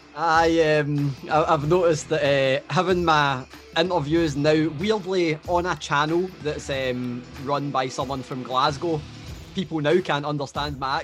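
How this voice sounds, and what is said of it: Hard-to-understand regional accent. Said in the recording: “people can't understand his accent”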